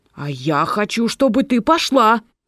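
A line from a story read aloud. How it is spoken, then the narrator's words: Mother's sharp shout. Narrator (Russian): прикрикнула мать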